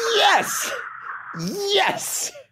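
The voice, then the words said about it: Excited yelling. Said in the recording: “I'm yelling yes like Daniel Bryan just walked into the arena.”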